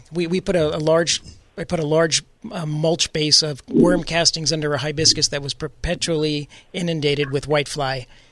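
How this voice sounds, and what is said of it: Raspy voice. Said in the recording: “my raspy voice”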